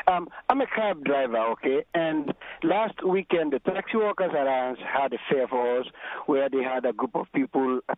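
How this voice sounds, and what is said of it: Slightly husky voice from a cold. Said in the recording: “my voice is a little husky. I got some cold.”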